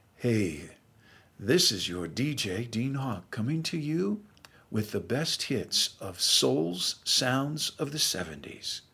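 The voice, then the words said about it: Low late-night radio DJ voice. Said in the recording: “late night, middle of the night DJ voice ... That low, middle-of-the-night DJ voice”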